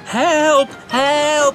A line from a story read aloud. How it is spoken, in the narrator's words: James cried out